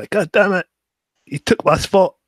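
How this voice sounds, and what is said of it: Bad put-on Irish accent, sounds Scottish. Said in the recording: “Why does she sound like Braveheart? ... Becky Lynch is Irish, not Scottish. ... I did a terrible Irish accent.”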